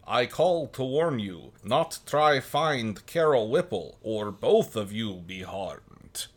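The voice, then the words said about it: Dracula-style foreign accent. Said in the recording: “speaking with a foreign accent ... I guess foreign for me is Dracula”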